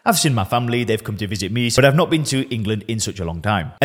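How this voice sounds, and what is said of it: Lancashire northern English accent. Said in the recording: “where on earth is this accent from? Well, I'm from Lancashire. I'm from the northwest of England.”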